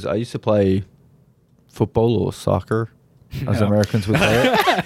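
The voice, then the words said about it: Put-on American accent. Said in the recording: “That was a really good American impression. ... The hard R.”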